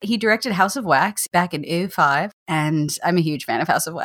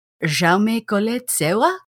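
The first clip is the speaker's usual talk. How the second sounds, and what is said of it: Attempted French accent. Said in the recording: “That's the best French accent I can work up at the moment.”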